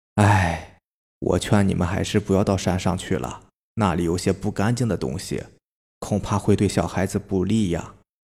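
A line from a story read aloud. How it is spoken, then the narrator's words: Sighing, worried old man. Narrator (Chinese): 恩泽爷爷脸色就变了，他叹了一口气说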